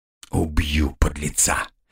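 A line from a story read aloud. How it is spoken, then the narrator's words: Angry hiss. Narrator (Russian): прошипел командир отделения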